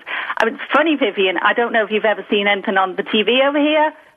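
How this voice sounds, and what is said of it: Mild Liverpool English accent. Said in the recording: “this here is my cultured Liverpool accent”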